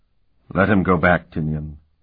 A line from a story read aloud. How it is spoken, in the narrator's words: Euleth said sadly